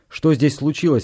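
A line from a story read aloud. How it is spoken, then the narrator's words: Bark. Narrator (Russian): рявкнул Валандер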